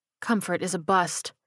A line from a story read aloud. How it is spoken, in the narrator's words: she said quietly